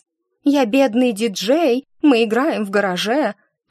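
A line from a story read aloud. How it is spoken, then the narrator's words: Mocking bleating voice. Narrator (Russian): передразнила я блеющим голосом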